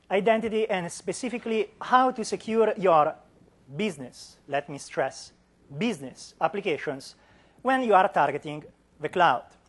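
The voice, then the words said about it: Non-native English accent. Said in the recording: “as you can hear from my accent ... No, I'm not native”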